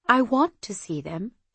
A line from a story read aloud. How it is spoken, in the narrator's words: she said quietly